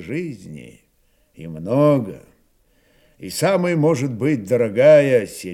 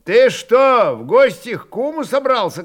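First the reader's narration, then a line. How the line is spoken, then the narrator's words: Shouted. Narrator (Russian): кричали ему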